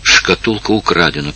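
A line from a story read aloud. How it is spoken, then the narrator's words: Whisper. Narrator (Russian): прошептала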